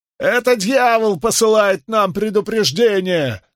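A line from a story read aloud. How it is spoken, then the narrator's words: Male voice shouting. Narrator (Russian): закричал мужской голос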